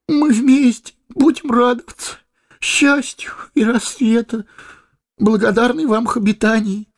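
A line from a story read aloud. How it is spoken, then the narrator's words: Sobbing. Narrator (Russian): проговорил хоббит, всхлипывая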